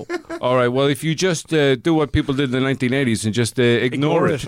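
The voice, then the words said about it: Put-on New Jersey accent. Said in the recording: “My New Jersey accent was perfect until I had to say good luck. And then I just went pure Irish.”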